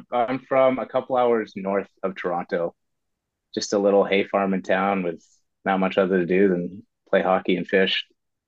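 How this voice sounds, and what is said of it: Canadian accent. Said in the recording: “is that a Canadian accent? ... Sure is, bud.”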